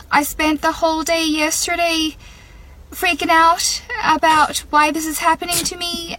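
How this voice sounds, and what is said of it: Speaks with an Irish accent. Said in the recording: “I woke up with an Irish accent”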